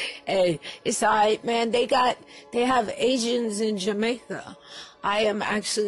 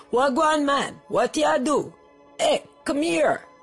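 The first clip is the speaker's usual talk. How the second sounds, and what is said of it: Put-on Jamaican accent. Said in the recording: “speak with the Jamaican accent”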